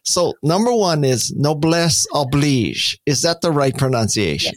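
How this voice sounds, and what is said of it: American accent saying French words. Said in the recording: “you have an American accent, but it's good”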